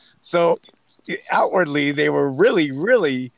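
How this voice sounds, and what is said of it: Usual voice. Nothing is said of it.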